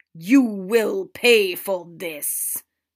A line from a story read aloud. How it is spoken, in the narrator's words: Father growled